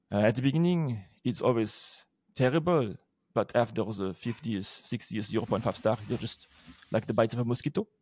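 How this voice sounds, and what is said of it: Imitated French accent. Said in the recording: “I'm going to try and imitate your French accent.”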